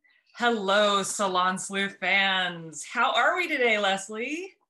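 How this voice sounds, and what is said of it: Put-on sultry, seductive voice. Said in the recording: “get my sexy voice on.”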